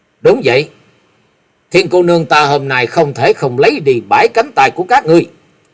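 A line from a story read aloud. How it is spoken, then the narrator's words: Cold young woman. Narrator (Vietnamese): Hắc Y thiếu nữ lạnh lùng nói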